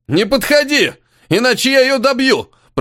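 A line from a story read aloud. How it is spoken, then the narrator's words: Shouted. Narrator (Russian): прокричал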